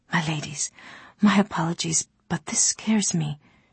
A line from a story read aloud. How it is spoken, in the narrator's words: she whispered, the picture of an alarmed slave